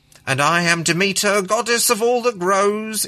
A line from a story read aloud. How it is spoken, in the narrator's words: intoned the lady with a theatrical flourish